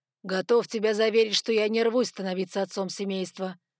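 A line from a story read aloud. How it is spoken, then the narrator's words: Gloomy reply. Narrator (Russian): мрачно ответил Ноа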